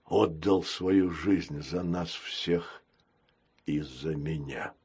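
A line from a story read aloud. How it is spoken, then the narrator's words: Muffled voice. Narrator (Russian): глухо сказал капитан Крокс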